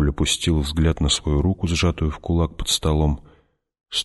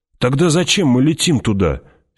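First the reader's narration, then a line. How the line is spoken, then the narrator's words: Angry question. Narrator (Russian): сердито спросил Пауль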